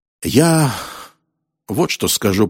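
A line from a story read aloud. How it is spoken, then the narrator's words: Grumbled. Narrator (Russian): проворчал Роллинс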